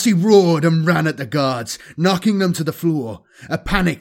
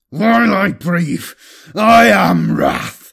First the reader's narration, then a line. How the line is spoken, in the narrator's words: Apollos snarled with effort